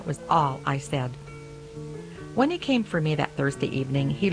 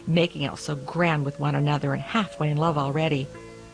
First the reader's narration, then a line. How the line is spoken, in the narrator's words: the cook snorted